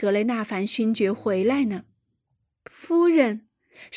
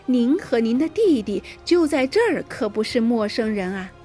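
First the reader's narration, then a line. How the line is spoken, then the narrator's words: Laughing. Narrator (Chinese): 夫人笑了起来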